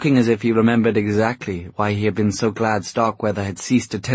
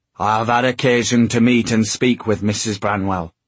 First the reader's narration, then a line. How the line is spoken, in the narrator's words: said Starkweather, in his hoarse Yorkshire tones